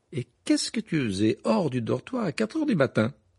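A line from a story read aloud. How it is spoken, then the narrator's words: Astonished exclamation. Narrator (French): s'exclama en contemplant sa mère avec stupéfaction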